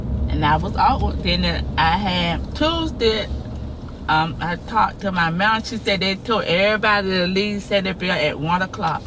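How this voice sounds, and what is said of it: Floridian Southern US accent. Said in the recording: “This is your accent. That's from Florida? ... That's a Floridian accent. ... It sounds like a dialect.”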